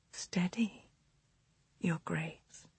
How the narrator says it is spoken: she whispered

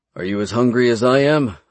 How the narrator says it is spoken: I asked her

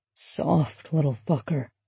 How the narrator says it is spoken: he'd murmured

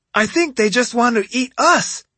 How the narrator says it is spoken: Yumeko let out a yelp

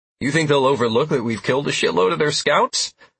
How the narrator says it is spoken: I said with a nervous laugh

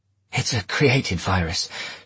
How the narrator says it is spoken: she said hoarsely

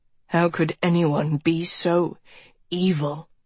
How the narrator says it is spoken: He rasped

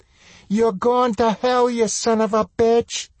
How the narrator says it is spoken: she shrieked

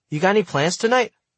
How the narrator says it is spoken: As I nervously walked her back to her car, I asked her

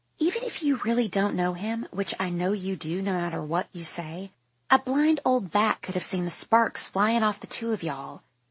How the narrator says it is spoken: Lucy Stage whispers

